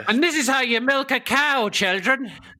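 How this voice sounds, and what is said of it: Put-on Irish accent. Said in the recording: “your Irish impersonation... I didn't realise I was doing an Irish impersonation.”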